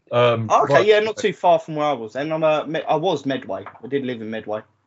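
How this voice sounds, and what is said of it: London and Kent English accent. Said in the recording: “your accent is familiar... Yes, it's London. it's London, Kent.”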